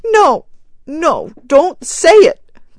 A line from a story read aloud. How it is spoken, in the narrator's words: cried the woman wildly